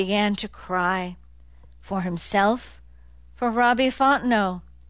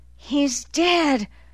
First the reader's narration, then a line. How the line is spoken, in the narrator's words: Dozer said, panting